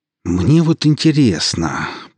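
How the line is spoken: Through gritted teeth. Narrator (Russian): процедил Виктор

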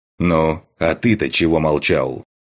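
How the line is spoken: Growl. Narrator (Russian): прорычал я

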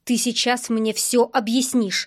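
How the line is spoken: Angry. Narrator (Russian): зло сказал Марк

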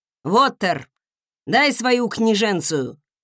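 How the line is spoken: Barking. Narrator (Russian): рявкнул он

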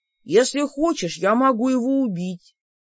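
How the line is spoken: Completely calm, thoughtful. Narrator (Russian): предложил он совершенно спокойно, все с той же задумчивостью

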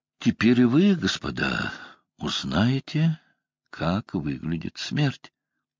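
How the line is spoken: Calm. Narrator (Russian): Потом спокойно сказал

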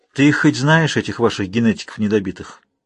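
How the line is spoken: Sighing, disgusted and upset. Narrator (Russian): вздохнула я, смиряя тон до брезгливо расстроенного

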